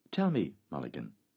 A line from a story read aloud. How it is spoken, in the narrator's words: Stephen said quietly